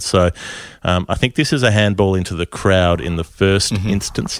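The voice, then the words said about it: Striking put-on accent, quite good. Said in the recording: “That accent is striking. It's good. It hurts me to say it, but it's good.”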